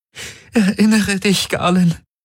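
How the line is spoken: Pleading. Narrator (German): flehte Kirai

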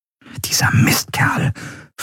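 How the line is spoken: Whispered. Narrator (German): flüsterte Endriel

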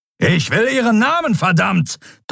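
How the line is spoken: Thundering roar. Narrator (German): donnerte Telios

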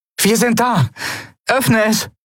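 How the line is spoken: Called out. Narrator (German): rief Endriel

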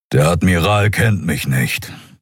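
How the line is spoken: Grumble. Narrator (German): brummte der Skria

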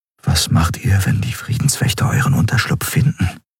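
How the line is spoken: Quiet question. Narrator (German): fragte Kai leise

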